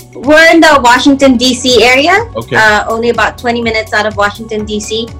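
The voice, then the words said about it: Slight Filipino accent. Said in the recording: “You can kind of hear it, right? In your accent, you kind of hear it.”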